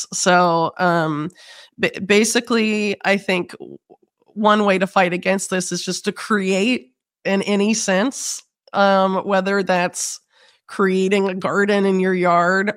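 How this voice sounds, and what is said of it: Rough, sick-sounding voice. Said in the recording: “sorry for my voice. I've had like bronchitis for a month.”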